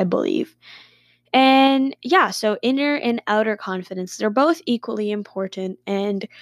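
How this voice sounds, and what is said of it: Usual voice. Nothing is said of it.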